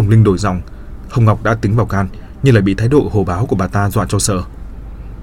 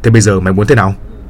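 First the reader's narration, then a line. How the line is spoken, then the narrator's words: Bullying shout. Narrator (Vietnamese): Người đàn ông gần cổ lên nạt nộ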